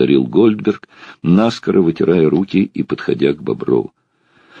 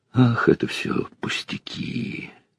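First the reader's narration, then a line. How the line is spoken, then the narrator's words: Moaning. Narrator (Russian): простонал Бобров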